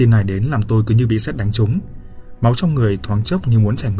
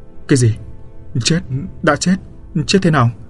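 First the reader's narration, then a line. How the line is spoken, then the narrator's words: Trembling question. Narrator (Vietnamese): chỉ biết run rẩy hỏi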